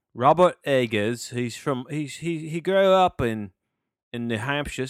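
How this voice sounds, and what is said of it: Put-on English accent. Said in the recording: “I don't know why I'm talking in English accent”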